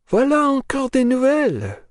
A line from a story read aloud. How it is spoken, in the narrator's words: exclaimed the younger of the two ladies, quite convinced that she would attract Nekhludoff's notice by her good French